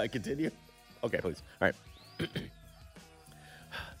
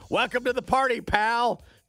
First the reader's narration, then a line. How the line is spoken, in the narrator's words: John yelled with delight